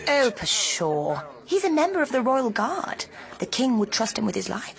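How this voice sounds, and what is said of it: Put-on posh accent. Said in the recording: “my posh voice”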